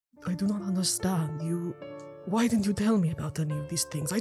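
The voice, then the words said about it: Character voice with vampire-like accent. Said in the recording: “I thought he was a vampire because of the accent.”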